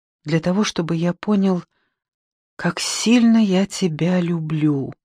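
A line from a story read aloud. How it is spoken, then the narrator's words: Barely audible reply. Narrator (Russian): отвечал он так тихо, что я едва расслышала его слова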